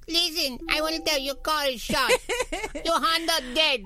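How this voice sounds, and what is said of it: Imitated accent of a mother. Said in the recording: “you're not allowed to do accents anymore... Can you do my mother's accent still?”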